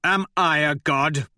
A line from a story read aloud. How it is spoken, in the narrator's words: snarl